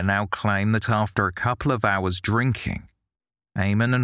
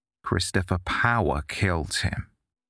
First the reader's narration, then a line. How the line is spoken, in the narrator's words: McGuire calmly responded